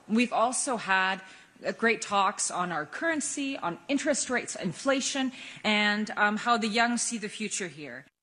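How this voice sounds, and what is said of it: American-sounding accent in English. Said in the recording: “if you're wondering about her accent, yes, Frostadottir did study in the U.S.”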